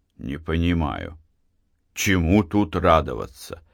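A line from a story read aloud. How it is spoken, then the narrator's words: Gloomy remark. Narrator (Russian): мрачно заметил Матвей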